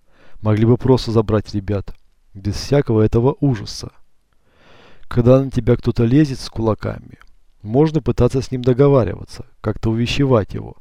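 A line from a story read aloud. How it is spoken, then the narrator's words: Plain. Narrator (Russian): ответил Черный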